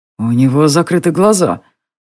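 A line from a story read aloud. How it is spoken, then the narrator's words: Said gloomily. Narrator (Russian): мрачно сказал Бернар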